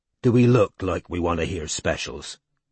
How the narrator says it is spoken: Strike growled

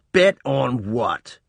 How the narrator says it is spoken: Reuben spat again

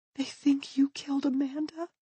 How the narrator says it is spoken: She says, her voice a whisper

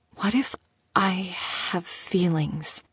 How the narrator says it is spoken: She whispered

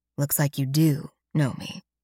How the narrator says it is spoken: Alex says quietly

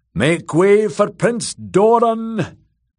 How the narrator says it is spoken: Ario Hotar boomed out

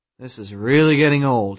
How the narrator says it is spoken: he said wearily

